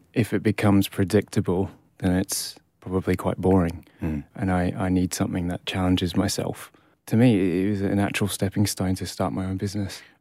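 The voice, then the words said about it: Scottish accent. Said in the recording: “I was born in Edinburgh... So grew up in Scotland, obviously... Obviously from your accent”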